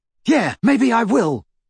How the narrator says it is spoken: shouted Ron

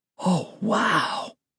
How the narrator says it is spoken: I murmured

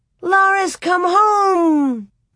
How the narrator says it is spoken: Grace clapped her hands and shouted

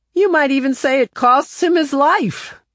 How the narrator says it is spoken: One of the students called out

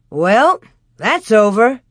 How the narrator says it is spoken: Pa said cheerfully

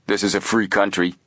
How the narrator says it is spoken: Frank retorted, also speaking in a tough tone

